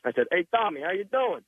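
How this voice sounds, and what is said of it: Heavy put-on Italian accent. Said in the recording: “with like a heavy Italian accent”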